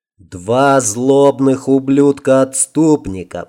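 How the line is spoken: Through gritted teeth. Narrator (Russian): процедил сквозь зубы Лин

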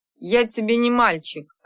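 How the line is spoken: Snapping, man. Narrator (Russian): огрызнулся он

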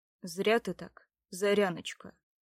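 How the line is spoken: Quiet, conflicted. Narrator (Russian): ответил тихо Огнеслав, ощущая в своей душе два противоречивых чувства

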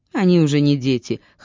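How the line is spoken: Snorting hmph. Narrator (Russian): хмыкнул Ноа

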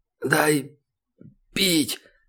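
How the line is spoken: Hoarse croak. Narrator (Russian): прохрипел Славка

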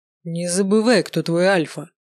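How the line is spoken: Werewolf's growl. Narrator (Russian): рыкнул оборотень

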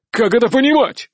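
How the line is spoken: Barked. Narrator (Russian): гаркнул Николай VI

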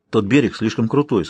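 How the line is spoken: Plain. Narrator (Russian): сказал он

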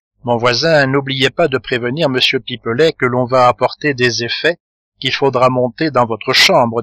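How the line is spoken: Plain. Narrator (French): dit Rigolette

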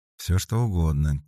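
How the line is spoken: Quiet. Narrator (Russian): тихо сказала Дарья

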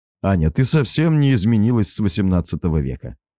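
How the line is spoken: Laughing. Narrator (Russian): засмеялся я

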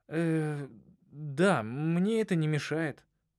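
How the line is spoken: Strained, forced out. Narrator (Russian): только и сумел выдавить я

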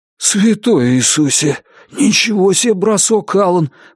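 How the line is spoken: Breathless exclamation. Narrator (Russian): выдохнул Джон

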